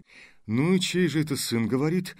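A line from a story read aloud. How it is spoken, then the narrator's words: Joyless laugh. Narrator (Russian): Невесело засмеялся он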